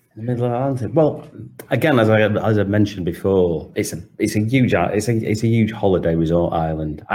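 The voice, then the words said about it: British Manchester accent. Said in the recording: “assuming from your accent ... you're originally from the UK ... a Manchester accent, which of course is where I'm originally from, Manchester”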